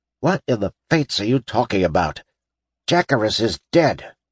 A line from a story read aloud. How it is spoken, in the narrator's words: snapped Drass irritably